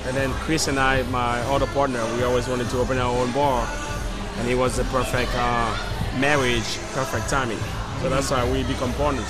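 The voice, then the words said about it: Non-Philadelphia foreign accent. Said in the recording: “that accent is not Philadelphia.”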